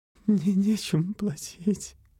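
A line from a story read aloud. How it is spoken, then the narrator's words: Tearful whisper. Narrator (Russian): глотая слезы, прошептала Палет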